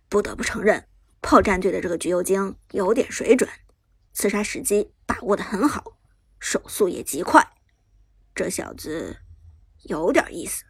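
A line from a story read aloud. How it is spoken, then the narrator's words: Low sighing voice. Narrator (Chinese): Lucky 不由得低声叹道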